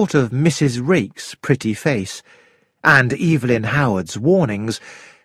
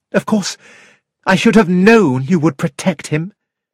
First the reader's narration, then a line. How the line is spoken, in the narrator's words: said bitterly